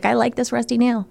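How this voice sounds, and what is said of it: Silly voice imitating a spider. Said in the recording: “That was my impression of a spider. ... It was pretty good. ... I'm working on, you know, just different kind of voices.”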